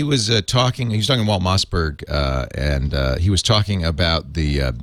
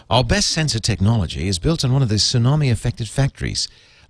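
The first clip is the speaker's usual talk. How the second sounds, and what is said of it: Put-on English accent. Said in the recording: “I have to tell you what the accent is ... I have that English accent in my head”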